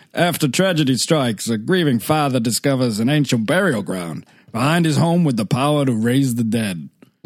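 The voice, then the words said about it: Fred Gwynne impression. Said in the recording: “Fred Gwynne. His main accent, please.”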